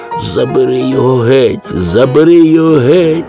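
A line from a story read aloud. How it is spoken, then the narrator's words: Moaning. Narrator (Ukrainian): стогнала панна Цап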